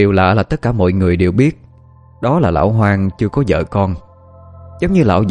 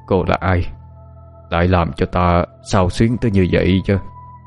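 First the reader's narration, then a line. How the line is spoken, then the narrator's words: Muttering. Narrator (Vietnamese): lẩm bẩm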